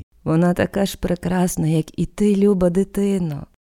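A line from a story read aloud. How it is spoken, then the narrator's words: Tender. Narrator (Ukrainian): ніжно сказала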